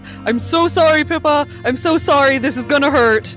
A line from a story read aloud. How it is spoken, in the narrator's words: she yells